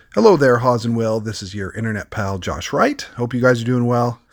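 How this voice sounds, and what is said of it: Squeaky, sick-sounding voice. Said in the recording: “I'm getting over a little bit of a virus, so I apologize in advance if my voice sounds a bit like uh, the squeaky voice teen from The Simpsons”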